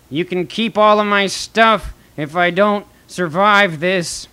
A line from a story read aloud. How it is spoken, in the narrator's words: He yells out to Harry